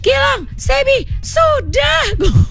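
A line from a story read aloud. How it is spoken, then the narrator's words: Shouted from roadside. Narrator (Indonesian): teriak dari pinggir jalan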